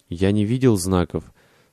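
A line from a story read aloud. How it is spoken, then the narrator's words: Plain. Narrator (Russian): сказал Сол Уитберг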